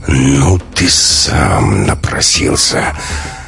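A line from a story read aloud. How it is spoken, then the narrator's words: Hissed through clenched teeth. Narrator (Russian): Стиснув зубы, Максим прошипел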